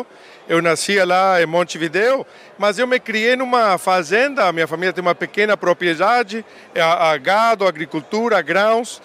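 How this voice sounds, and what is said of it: Uruguayan accent in Portuguese. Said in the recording (Portuguese): “Você já entregou esse sotaque aí? Não é daqui, deve ser ali dos nossos vizinhos ... sotaque uruguaio”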